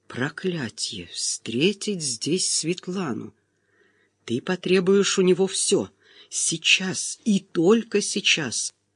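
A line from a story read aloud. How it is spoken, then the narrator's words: Nervous whisper, quieter and faster. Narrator (Russian): Нервный шепот становился все тише и быстрее по мере нашего приближения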